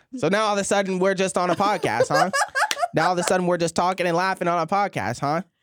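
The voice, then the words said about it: Imitates another person's voice. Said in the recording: “can I do your impression? Impression?”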